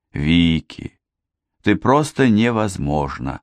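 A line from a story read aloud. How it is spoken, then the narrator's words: Sigh. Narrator (Russian): вздохнула Мэри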